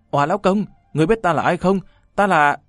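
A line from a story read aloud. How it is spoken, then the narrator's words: Woman screaming with full strength. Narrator (Vietnamese): Nàng dùng hết sức lực hét lên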